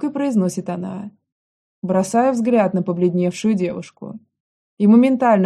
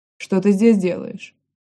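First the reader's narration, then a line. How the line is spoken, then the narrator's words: Rather rude question. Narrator (Russian): Довольно грубо спрашиваю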